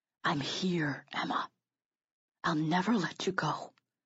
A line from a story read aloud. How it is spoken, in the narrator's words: whispered in my ear